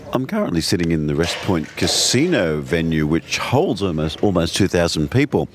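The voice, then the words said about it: Congested, cold-affected voice. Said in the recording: “I've got a little bit of a fluey cold, which explains why I sound a bit different.”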